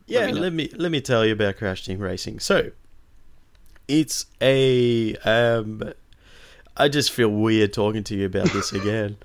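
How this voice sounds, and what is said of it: Hoarse, nearly lost voice. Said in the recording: “why do you have such a sexy voice on? ... because I partied too hard last night, and my voice is gone.”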